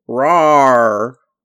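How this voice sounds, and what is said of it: Growling bear impression. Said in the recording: “That was my bear impression.”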